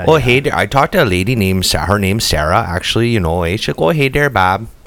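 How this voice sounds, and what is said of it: Put-on Minnesota accent. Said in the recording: “the Midwest accent as like the Minnesota ... Minnesota accent ... How do you do it?”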